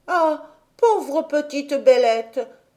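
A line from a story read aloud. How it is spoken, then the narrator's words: Exclaiming. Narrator (French): s'écria Heidi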